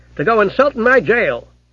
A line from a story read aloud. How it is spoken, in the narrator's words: added the copper testily